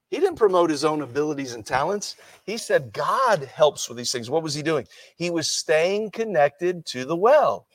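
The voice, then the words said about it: American accent. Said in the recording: “with my American accent”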